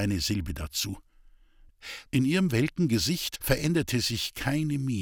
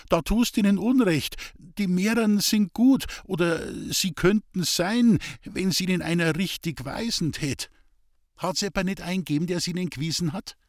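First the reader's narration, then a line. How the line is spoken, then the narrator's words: Frightened stammer. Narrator (German): stotterte Hans-Peter erschrocken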